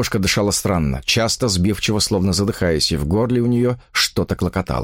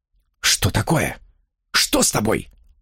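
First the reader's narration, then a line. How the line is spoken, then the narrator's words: Whispering. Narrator (Russian): прошептал он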